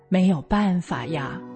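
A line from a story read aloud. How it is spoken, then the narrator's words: Sighing reply. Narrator (Chinese): 妈妈只是叹了口气，回我说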